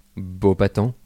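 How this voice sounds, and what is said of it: Put-on French accent. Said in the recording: “How would you say that in a French accent?”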